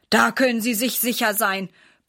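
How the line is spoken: Grumbled. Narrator (German): brummt Herr Schmidt

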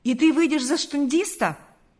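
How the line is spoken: Exclamation. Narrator (Russian): воскликнул Карп

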